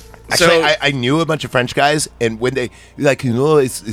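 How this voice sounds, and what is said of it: Usual voice. Nothing is said of it.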